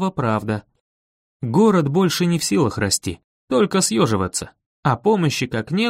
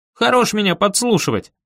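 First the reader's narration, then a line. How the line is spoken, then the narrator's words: Barked. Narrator (Russian): рявкнул я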